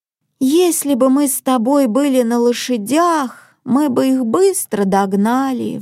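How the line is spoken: Sighing. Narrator (Russian): вздохнула Марен

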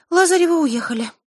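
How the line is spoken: Sighing. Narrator (Russian): вздохнула Диана

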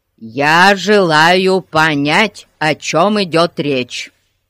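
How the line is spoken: Stern. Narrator (Russian): строго сказал он

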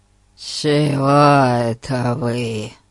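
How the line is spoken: Creaky questioning voice. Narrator (Russian): Своим скрипучим голосом спросил мистер Ларкин

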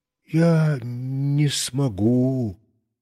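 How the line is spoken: Quiet speech. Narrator (Russian): тихо сказал я

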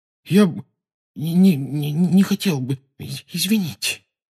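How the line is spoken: Strained, forced out. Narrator (Russian): выдавил он из себя

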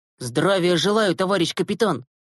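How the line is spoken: Barking shout. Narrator (Russian): гаркнул он

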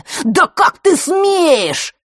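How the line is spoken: Shrill shout. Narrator (Russian): визгливо выкрикнул Марк

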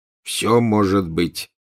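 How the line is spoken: Gloomy. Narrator (Russian): мрачно ответил Фред

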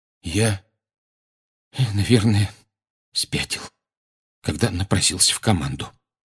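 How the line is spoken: Hoarse male whisper. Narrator (Russian): хрипло прошептал он

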